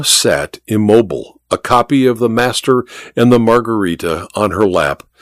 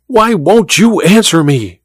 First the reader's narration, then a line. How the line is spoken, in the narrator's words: she cried to Olga